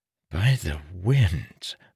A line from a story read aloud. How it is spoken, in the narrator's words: Marin whispered